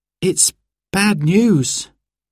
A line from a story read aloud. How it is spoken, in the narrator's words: he said sadly